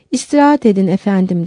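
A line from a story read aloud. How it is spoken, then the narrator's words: Plain. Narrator (Turkish): dedi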